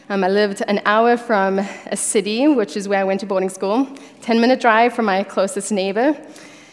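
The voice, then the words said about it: Slight South African accent. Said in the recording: “you may catch a hint of my accent. I was born and raised in South Africa.”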